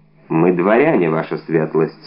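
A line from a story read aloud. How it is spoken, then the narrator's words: Plain. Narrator (Russian): сказал Атос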